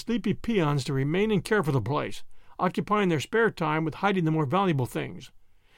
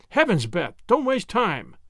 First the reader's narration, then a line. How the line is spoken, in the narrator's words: exclaimed Wemple